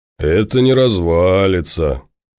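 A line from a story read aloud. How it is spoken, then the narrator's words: Reverent hoarse drawl. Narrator (Russian): благоговейно протянул хриплый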